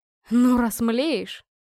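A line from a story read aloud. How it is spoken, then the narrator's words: Snorting. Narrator (Russian): хмыкнул он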